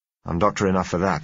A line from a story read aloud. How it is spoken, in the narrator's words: I said